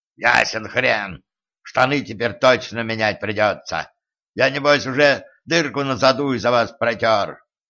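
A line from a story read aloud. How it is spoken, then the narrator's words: Dwarf's ferocious growl. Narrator (Russian): свирепо прорычал гном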